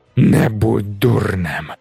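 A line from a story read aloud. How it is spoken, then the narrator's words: Growled. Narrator (Ukrainian): загарчало обличчя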